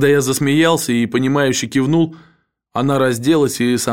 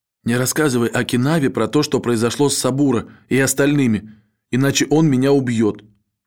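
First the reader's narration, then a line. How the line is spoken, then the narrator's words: Whisper in ear. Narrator (Russian): Рейка прошептала мне на ухо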